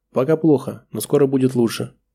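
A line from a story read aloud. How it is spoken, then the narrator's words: Calm reply. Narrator (Russian): спокойно ответила Таира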